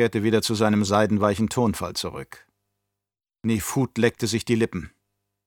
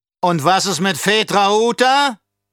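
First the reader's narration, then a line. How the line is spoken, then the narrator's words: Thundering baron. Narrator (German): donnerte der Baron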